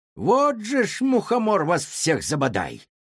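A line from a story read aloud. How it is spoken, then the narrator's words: Loud grumbling. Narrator (Russian): громко ворчала она, не замечая перемен, происходивших вокруг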